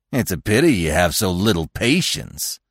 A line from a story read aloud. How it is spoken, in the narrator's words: Rono said with a sneer